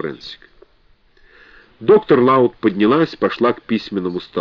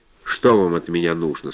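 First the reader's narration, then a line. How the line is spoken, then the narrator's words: Plain. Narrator (Russian): спросила она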